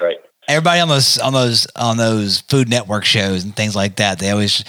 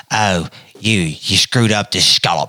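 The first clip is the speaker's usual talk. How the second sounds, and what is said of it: Put-on British accent. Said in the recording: “they're British accents and stuff... all chefs have British accents”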